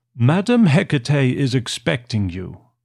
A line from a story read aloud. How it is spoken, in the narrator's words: said the cadaverous receptionist in a harsh metallic voice